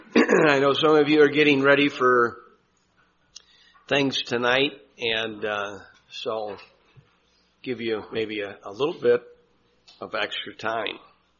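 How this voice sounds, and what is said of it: Strained voice with throat clearing. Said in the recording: “my voice has been having problems ever since early October, and it just seems like it's getting worse. And so I'll probably be clearing my throat a lot today”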